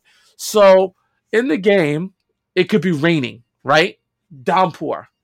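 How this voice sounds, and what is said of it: Speaks with a noticeable accent. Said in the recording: “My accent gets in the way.”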